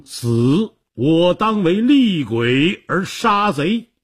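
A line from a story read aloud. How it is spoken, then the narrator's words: Roar. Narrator (Chinese): 他大吼一声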